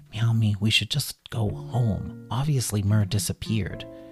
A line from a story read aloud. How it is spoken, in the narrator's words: Kitty whispered to Bunny